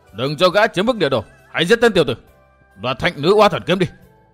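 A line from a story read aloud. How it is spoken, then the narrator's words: Crowd shouting loudly. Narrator (Vietnamese): quần hùng vẫn quát to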